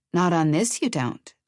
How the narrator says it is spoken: Elizabeth said calmly

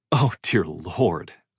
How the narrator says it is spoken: I said, unable to keep the laugh from escaping

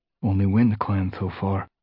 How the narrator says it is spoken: murmured Graystripe, who was crouched at Firestar's shoulder

